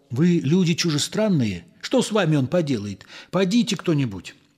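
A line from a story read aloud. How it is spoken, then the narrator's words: Gentle. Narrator (Russian): ласково сказал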